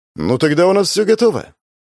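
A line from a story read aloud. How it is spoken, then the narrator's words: Joyful announcement. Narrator (Russian): радостно сообщила старпом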